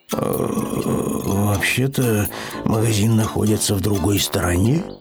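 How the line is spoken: Low mutter. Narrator (Russian): пробормотал он вполголоса

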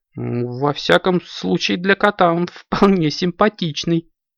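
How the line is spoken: Giggled. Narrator (Russian): хихикнула Аленка

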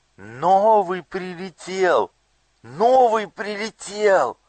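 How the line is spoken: Youngest child shouting. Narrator (Russian): самый младший из них закричал

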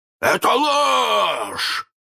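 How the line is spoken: Hoarse roar. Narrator (Russian): хрипко взревел Крюк

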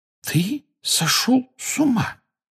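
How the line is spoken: Hoarse voice. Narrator (Russian): севшим голосом сказала Гермиона

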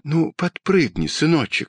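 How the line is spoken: Quiet, gentle. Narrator (Russian): тихо сказала мама

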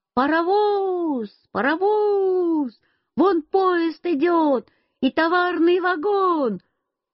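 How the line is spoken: Sudden shout. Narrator (Russian): вдруг я закричал

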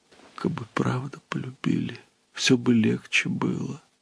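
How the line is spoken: Quiet tearful answer. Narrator (Russian): Она тихо ответила, смаргивая слезы

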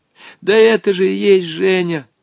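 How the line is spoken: Desperate exclamation. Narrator (Russian): с отчаянием воскликнул Волька

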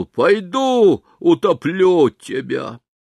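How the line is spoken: Shout. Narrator (Russian): крикнул

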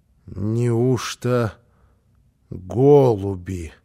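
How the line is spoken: Muttering. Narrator (Russian): пробормотала она

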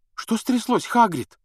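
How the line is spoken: Frightened question. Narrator (Russian): спросила испуганно Гермиона

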